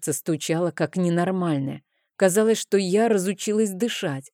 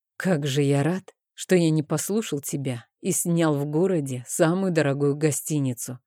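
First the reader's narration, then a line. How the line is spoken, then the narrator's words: Exhaled, cold tense voice. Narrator (Russian): Выдохнул, но голос все еще оставался холодным, а он сам напряженным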